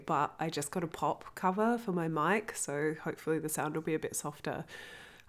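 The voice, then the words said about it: Congested voice with heavy vocal fry. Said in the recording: “I'm a bit stuffed up, so I'll be extra vocal fry”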